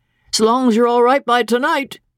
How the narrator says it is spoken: he said cheerfully

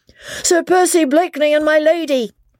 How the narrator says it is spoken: he shouted at the top of his voice

